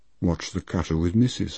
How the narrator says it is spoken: I muttered

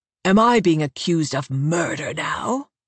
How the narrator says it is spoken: North asks, hissing the words through his teeth

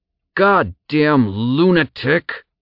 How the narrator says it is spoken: Zack spat through gritted teeth

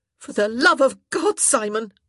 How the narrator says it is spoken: she snapped

